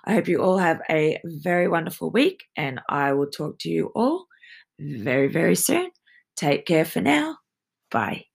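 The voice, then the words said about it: Strained, failing voice. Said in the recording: “My voice is about to die.”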